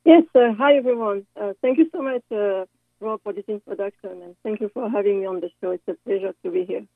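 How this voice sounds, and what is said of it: French accent. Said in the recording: “I love her accent, and she's from France”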